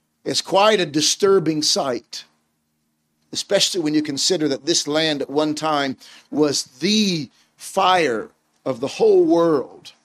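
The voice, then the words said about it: American accent. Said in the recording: “my accent is American”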